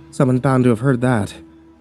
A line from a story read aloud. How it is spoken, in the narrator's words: Deacon said nervously